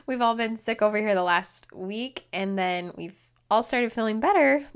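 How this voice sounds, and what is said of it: Slightly hoarse voice. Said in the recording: “my voice sounds a little hoarse. It feels a little hoarse. ... So I am feeling a little hoarse”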